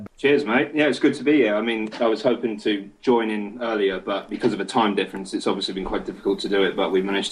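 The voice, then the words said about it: Australian accent. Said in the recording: “what was that crazy voice? Was that an Australian accent?”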